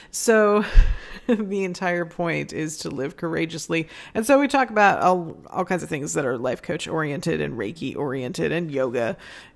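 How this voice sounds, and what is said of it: Strained, fading voice. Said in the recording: “I'm losing my voice again”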